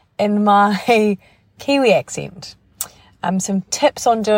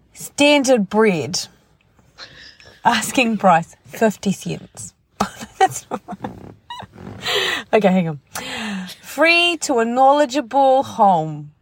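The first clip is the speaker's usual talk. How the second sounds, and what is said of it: Imitating another woman's accent. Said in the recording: “the voice of Lorene, accent of Lorene Barden”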